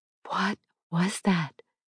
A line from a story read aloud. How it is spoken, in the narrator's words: Eva asked in a soft voice